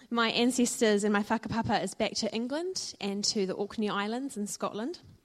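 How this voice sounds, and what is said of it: New Zealand accent. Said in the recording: “I'm Kiwi born and I grew up in Dunedin ... you might not understand my accent”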